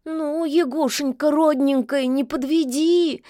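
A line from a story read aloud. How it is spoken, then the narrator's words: Frightened squeal. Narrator (Russian): испуганно заверещал Баюн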